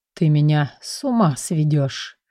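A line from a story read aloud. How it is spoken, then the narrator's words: Hoarse through gritted teeth. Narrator (Russian): прохрипел он сквозь зубы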